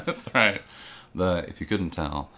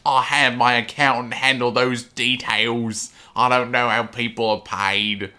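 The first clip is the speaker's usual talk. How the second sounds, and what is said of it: Imitates another person's voice. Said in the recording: “that was a perfect impression”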